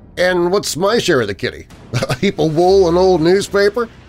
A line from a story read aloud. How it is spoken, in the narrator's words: He tried to force a laugh